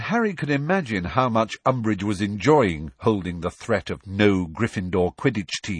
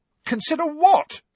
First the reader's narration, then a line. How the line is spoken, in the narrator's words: said Ron angrily